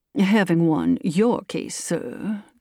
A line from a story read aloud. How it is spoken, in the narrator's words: said coolly